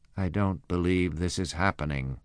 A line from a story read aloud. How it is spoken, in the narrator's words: I muttered